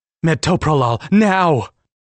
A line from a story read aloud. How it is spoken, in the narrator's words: Candela yelled out louder than I would have thought her voice could